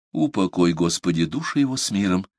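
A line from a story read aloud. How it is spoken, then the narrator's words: Whispered. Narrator (Russian): прошептал Парсел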